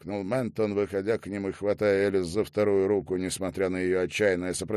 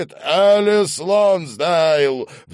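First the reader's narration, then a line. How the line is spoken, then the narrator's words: Roaring over screams. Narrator (Russian): взревел Ментон, перекрывая ее вопли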